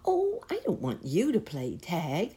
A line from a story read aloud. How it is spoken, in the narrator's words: exclaimed Baby Bunty